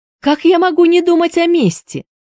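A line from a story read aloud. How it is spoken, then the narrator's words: Tearful shout. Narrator (Russian): закричала Присцилла, и у нее брызнули слезы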